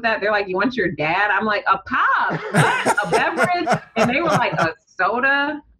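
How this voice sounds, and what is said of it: Detroit accent with Southern twang. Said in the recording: “someone asked me if I was from Alabama ... people from Detroit, we have like a Southern twang”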